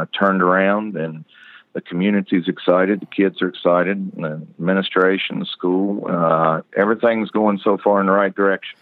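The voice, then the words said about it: Southern American accent. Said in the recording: “My southern accent gets me. I have had a southern accent a long time, and then being even in Virginia, it stuck out really bad there too”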